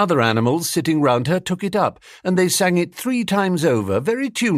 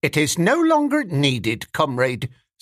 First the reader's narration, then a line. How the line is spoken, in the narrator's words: said Squealer stiffly